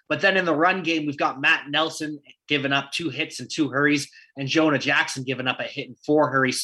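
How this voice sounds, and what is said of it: Canadian accent. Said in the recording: “I know I got my Canadian accent. I'm trying to work on that.”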